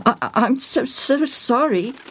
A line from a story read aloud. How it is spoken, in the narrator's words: Joel spluttered